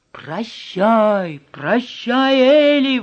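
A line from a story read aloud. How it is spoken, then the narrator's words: Friends exclaiming together. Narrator (Russian): воскликнули друзья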